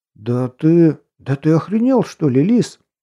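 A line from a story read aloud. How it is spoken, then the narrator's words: Indignant howl. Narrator (Russian): взвыл наш казначей и главный торговец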